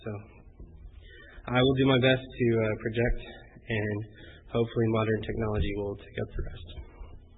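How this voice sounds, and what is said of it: Funny-sounding voice from being sick. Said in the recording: “my voice is a little funny ... I was a little bit sick this past week, and it just won't go away”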